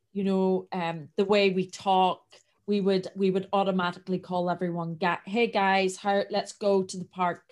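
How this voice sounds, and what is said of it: Strong Northern Irish accent. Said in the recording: “I have quite a strong accent. I am from Northern Ireland”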